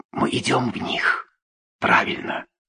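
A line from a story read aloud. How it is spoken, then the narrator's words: Quiet. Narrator (Russian): Жан-Луи тихо сказал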